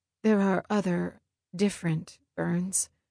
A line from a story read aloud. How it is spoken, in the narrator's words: Hesitantly, she asked